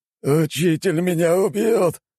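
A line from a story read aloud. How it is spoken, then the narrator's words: Whimpered. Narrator (Russian): проскулил Плагус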